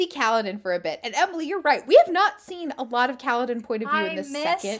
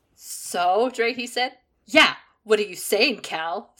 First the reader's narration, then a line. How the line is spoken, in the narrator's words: Scar snapped